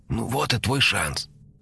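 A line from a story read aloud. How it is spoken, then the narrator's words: Soft whisper. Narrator (Russian): тихонько шепнула она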